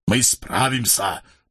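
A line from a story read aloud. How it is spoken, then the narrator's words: Muttered. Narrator (Russian): пробормотал воевода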